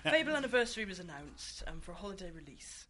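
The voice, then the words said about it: Put-on English accent. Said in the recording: “I'm doing my English voice.”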